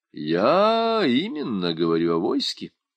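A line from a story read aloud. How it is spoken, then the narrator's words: Calm objection. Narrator (Russian): спокойно возразил посол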